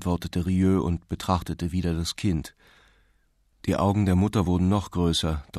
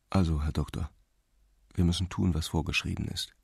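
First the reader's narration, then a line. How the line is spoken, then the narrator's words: Quiet. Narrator (German): sagte er leise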